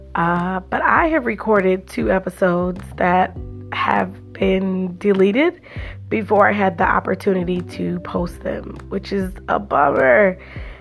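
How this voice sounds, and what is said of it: Hoarse, sore-throated voice. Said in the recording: “Excuse my voice. I have a little bit of a sore throat.”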